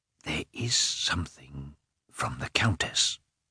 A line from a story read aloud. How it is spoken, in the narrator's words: said the porter whispering